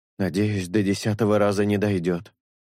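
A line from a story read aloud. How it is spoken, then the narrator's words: Sighing. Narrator (Russian): вздохнул Шелк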